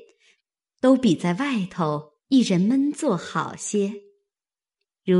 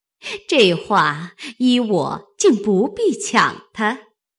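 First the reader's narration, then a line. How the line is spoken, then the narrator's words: Laughing. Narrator (Chinese): 凤姐便向王夫人笑道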